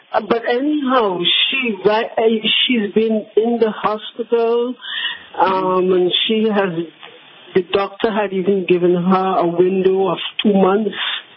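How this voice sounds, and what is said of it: Trinidadian accent, English-sounding. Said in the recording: “you have an English accent ... I'm from Trinidad”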